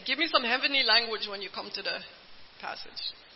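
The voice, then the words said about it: Weak attempt at island accent. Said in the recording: “That was my poor attempt at island accent.”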